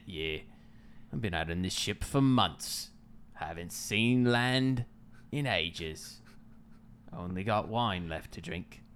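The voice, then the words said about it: Exaggerated pirate accent. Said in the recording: “in a bad accent ... I think I'm going to go with a pirate accent. ... pirate accent”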